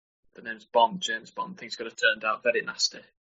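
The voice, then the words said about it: James Bond impression. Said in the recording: “Is that a James Bond from B-Dale”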